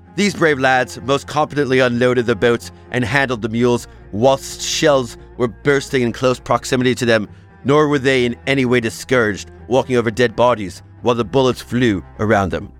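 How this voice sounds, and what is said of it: Exaggerated, ridiculous British accent. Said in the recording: “that was the most ridiculous British accent of all time”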